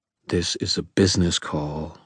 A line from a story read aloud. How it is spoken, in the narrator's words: I said in a quiet, low voice, knight to lady